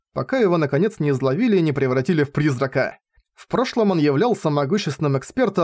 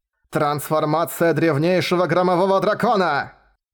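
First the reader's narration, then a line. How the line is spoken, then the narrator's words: Thunderous powerful old voice. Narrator (Russian): прогремел наполненный силой небес голос старика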